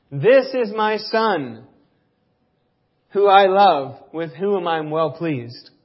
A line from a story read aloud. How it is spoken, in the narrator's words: God shouted down from heaven